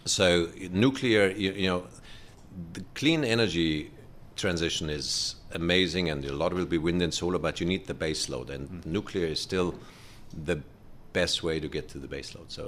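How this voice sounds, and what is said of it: German accent. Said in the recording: “I'm from Germany originally. I mean, you can tell the accent.”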